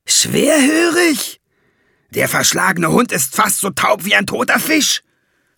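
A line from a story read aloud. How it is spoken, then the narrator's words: Shout. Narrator (German): schrie Valiant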